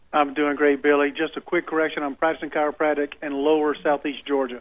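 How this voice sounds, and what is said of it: Southern US accent. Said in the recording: “Lower Southeast Georgia... Judging from your accent, I should have known better.”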